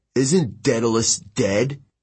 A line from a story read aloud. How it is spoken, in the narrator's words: Quintus grunted